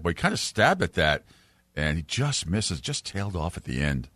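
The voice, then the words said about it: Hushed whispering golf commentator voice. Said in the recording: “Why am I whispering?... That was a great golf voice... Why is ... doing his golf voice?”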